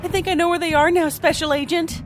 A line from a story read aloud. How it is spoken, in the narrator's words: Maeve shouted